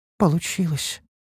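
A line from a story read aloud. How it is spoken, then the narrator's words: Uncertain, hesitant. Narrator (Russian): неуверенно подала голос Ниуру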